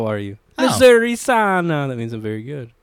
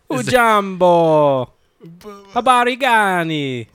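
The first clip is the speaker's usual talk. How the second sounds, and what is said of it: Fake Jamaican accent, sing-song. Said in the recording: “Why is it all the same like ... pitch? ... fake Jamaican accent ... everything is very sing-song”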